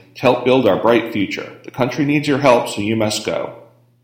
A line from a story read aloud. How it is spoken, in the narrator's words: continued sternly